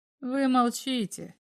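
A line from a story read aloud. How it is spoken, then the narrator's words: Sad doctor. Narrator (Russian): сказал врач печально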